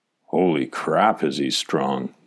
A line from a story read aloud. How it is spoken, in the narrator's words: Derek murmured